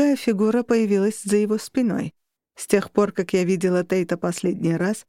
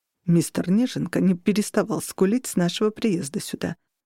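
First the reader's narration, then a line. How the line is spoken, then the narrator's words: Mutter. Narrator (Russian): пробормотал он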